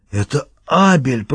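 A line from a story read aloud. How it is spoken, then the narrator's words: Wheezed hoarsely. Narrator (Russian): прохрипел он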